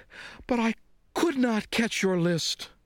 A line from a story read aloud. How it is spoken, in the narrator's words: gasped Frog